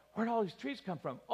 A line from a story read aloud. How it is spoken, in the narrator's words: I asked my daughter, I did it quietly